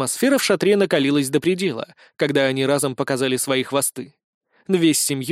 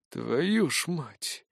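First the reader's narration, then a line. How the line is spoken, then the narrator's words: Quiet whisper. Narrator (Russian): тихо прошептал представитель Поречниковых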